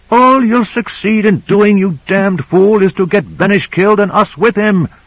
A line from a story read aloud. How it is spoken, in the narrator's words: yelled Michaels